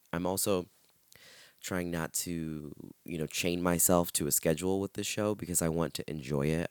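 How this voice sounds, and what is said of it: Hoarse, strained voice. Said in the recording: “I'm a little hoarse because I went out last night ... lost my GD voice”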